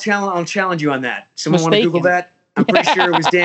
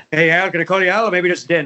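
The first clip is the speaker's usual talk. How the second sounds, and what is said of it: Imitates another person's voice. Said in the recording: “your Robin Williams impersonation ... Oh, that's pretty good. ... Yeah, super good.”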